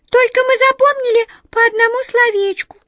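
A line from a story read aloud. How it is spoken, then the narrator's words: Embarrassed squeak, small mouse. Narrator (Russian): смущенно пискнула одна из мышек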